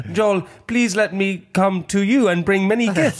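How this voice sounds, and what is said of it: Broken foreign English, Yoda-like. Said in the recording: “when foreign people try and speak English and they always sound like Yoda ... They do it in this sort of broken Yoda accent. ... All the words in the wrong places.”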